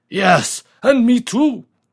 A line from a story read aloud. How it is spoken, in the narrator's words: roared a third unsteady voice